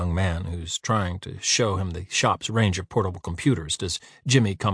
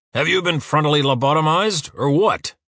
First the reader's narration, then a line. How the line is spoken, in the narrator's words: Uwe roars